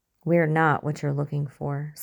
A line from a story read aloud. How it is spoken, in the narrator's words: Scully said